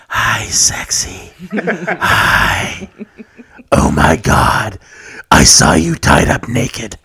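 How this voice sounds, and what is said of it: Put-on creepy sexy character voice. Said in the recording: “Greedy Sexy Voice ... I need to work on my creepy voice.”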